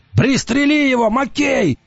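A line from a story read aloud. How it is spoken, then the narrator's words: Shouting. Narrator (Russian): закричал Уртона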